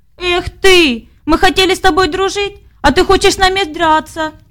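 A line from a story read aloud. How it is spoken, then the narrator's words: Shouted by several voices. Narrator (Russian): закричали они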